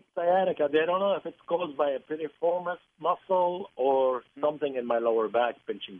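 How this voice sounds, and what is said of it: Lebanese Middle Eastern accent. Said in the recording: “not with that accent. ... I was born in Lebanon. ... Middle East”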